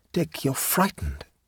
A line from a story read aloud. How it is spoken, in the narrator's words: she said quietly